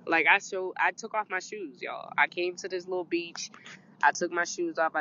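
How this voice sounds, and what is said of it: Sick, strained voice. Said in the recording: “right now I'm sick ... My voice isn't completely gone”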